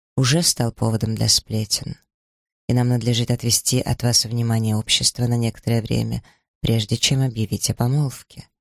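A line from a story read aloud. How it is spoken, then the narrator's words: Even, level voice. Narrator (Russian): ровным голосом ответил Сомерсет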